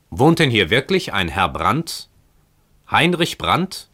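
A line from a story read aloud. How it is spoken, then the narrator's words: Loud calling. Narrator (German): rief mit lauter Stimme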